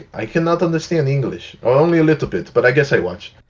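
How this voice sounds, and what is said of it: Bad put-on French accent. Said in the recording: “That was a really bad accent. ... Edit French accent.”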